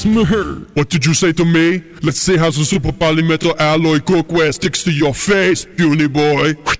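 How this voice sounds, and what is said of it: Poor Arnold celebrity impersonation. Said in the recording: “Arnold ... All celebrity voices are poorly impersonated.”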